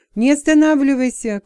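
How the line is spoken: Shouted. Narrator (Russian): крикнул отец

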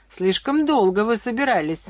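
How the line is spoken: Girl laughing. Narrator (Russian): смеялась девушка

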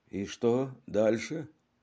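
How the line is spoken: Plain. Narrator (Russian): спросил он

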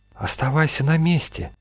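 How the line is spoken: Whispered. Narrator (Russian): шепнула Надежда Артёму

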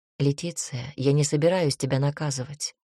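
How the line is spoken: Sighing. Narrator (Russian): вздохнул он

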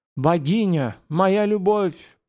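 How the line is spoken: Enchanted moan. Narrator (Russian): простонал хвостатый сосед, будто привороженный

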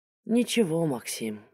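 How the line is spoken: Sighing. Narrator (Russian): вздохнула она

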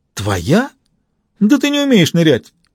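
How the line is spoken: Teasing exclamation. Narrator (Russian): воскликнул Макс, желая позлить сестру

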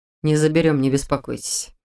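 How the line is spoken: Gentle reassurance. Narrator (Russian): мягко заверил Дементьев

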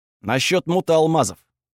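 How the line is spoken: Confident reply. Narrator (Russian): ответил уверенным тоном

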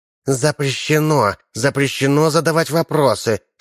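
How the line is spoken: Hissing. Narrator (Russian): шипела Чикита

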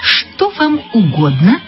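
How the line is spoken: Plain. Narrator (Russian): спросила продавщица

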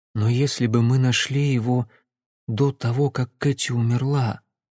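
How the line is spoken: Quiet. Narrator (Russian): тихо проговорила Симона

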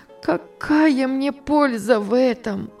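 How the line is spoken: Sobbing. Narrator (Russian): отвечала она, рыдая

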